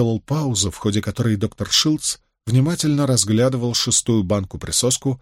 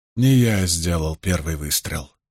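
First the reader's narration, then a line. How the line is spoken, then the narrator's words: Tired, heavy voice. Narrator (Russian): продолжил Пейн устало, тяжелым голосом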